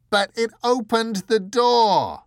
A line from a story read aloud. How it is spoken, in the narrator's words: screamed the angel